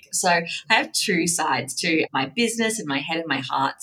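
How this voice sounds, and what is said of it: Australian accent. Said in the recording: “I live in Australia, if you can't tell from the accent”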